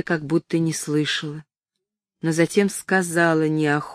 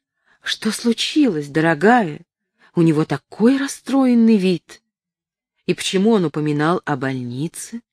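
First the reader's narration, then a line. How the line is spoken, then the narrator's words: Curious, overcoming shyness, exclaiming. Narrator (Russian): любопытство победило в ней робость, она воскликнула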